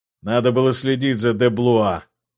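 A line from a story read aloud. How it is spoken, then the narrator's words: Snorting king. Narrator (Russian): хмыкнул король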